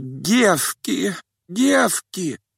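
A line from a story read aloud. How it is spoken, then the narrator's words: Moaning. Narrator (Russian): простонала она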